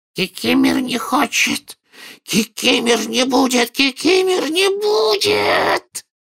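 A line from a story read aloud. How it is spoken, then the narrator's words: Loud hoarse croak. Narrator (Russian): прохрипел домовик так же громко, как и дядя Вернон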